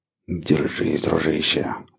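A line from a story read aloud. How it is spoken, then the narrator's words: Muttered. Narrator (Russian): бормотал он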